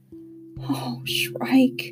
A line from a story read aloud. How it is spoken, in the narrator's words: whispered Hester